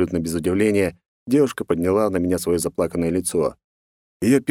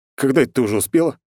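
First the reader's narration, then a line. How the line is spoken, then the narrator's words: Smirking snort. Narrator (Russian): хмыкнул я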